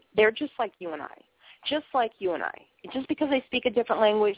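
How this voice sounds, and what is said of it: Boston accent. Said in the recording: “I'm from Boston. I talk funny. How much more funny talking can I possibly be? ... listen to my accent now ... I've got a funky-looking accent”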